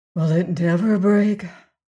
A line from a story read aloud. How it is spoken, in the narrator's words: said Leonard with a sigh